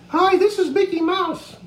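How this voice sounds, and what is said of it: High falsetto voice. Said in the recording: “My falsetto would be,”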